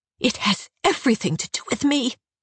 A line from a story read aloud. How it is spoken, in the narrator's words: She hisses